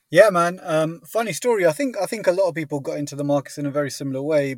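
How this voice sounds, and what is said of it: British accent, not very posh. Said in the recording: “If it's British, it sounds posh, but trust me, it's not as posh as it needs to be ... just the accent makes you posh by default”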